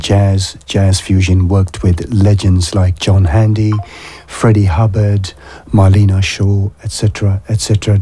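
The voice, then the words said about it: Voice going hoarse, strained. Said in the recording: “I'm losing my voice.”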